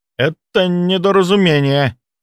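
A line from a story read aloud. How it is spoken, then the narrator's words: Forced out reluctantly. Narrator (Russian): выдавил он наконец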